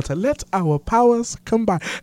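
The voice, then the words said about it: Imitated cartoon character's accent. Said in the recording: “I think I got the accent down.”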